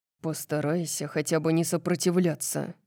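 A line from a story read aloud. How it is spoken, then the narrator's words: Irritated mumble. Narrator (Russian): пробормотал он, похоже, раздраженный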